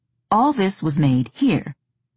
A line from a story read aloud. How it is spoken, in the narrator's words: Beatrice said